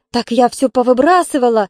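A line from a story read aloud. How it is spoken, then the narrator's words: Joyful announcement. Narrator (Russian): радостно сообщила Валентина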